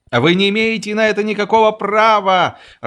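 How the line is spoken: Irritated shouting. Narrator (Russian): раздраженно кричал капитан

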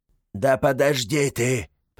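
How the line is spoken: Grumbling. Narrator (Russian): проворчал гремлун

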